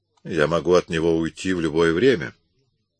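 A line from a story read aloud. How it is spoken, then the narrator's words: Plain. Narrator (Russian): сказал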